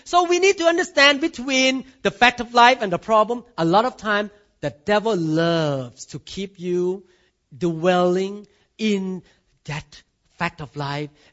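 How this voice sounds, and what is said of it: Thai accent. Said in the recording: “I cannot change my accent. Because I was born in Thailand.”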